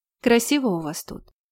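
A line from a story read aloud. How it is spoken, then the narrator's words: Quiet. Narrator (Russian): тихо сказала она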